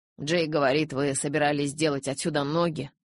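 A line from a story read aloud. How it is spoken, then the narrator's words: Father's grumble. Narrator (Russian): пробурчал папа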